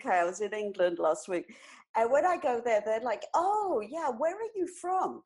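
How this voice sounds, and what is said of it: British accent with a slight twang. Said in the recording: “You can tell by the New York accent. ... you've got this twang. Is it Australia? ... I still sound like a Brit ... It's a Brit with a New York attitude”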